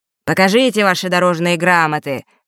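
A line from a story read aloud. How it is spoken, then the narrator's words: Croaking, unpleasant voice. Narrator (Russian): каркнул ушастый неприятным голосом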